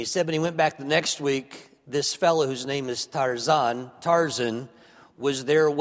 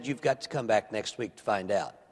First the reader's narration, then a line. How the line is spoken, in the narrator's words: Luke calmly said